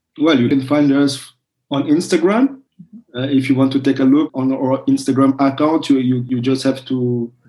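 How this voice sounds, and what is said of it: French accent. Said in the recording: “sorry for my French accent.”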